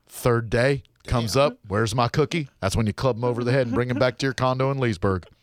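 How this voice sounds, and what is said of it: Imitates another person's voice. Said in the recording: “when I was imitating her voice”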